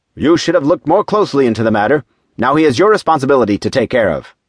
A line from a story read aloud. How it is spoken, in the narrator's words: he said sternly